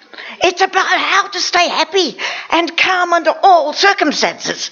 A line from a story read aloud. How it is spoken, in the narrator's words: yelled